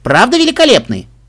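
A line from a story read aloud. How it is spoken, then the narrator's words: Loud. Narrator (Russian): продолжила она громко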